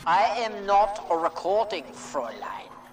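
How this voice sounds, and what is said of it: German accent. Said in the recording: “Why does your supercomputer have a German accent? You built a supercomputer and you gave it a German accent”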